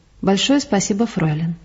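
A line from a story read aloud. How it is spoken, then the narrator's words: Quiet, friendly tone. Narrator (Russian): негромко сказал дружеским тоном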